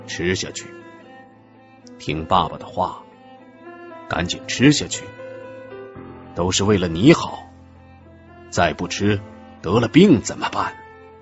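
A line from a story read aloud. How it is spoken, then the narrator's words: Restrained anger, gentle tone. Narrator (Chinese): 英慧的父亲…克制着自己的怒火，用尽量和缓的口气说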